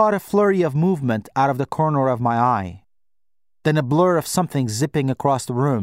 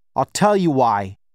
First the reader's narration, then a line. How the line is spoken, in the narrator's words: Baba snapped